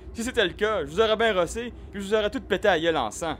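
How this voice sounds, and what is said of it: Strange regional dialect. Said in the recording (French): “Tu sembles parler un dialecte étrange de quelque contrée qui m'est inconnue”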